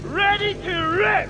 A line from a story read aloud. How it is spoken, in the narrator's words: He yelled